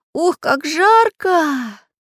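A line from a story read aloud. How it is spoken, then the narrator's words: Breathless exhale. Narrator (Russian): выдохнул Чижик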